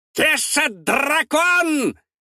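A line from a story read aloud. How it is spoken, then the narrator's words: Creature yelling. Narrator (Russian): вопит химероид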